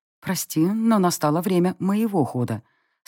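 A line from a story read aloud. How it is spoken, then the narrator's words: Calm remark. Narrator (Russian): спокойно заметила я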